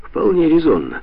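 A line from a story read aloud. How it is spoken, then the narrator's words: Snorting. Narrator (Russian): хмыкнул Макдональд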